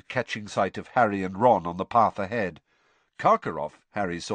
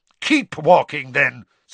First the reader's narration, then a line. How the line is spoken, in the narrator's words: Snape snarled